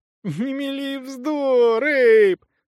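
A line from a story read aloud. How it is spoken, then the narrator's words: Whining. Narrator (Russian): захныкала Ли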